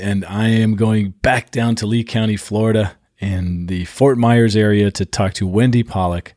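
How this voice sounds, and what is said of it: Voice sounds unwell, under the weather. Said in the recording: “I apologize for the voice today, a little bit under the weather”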